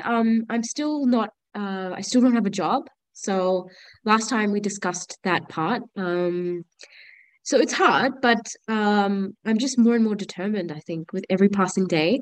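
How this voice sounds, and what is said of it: Nasal, congested voice from cold. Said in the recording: “excuse my voice. I haven't been well ... It's just a cold. So I think I sound nasally”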